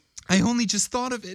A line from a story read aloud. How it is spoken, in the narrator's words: said hysterically